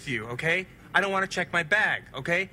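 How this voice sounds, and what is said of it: Raised, shouting voice. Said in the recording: “raise your voice, sir ... This would be raising my voice”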